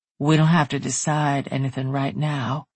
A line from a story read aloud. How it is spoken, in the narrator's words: he murmured